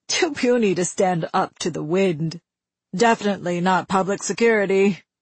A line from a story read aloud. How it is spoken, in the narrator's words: a young man said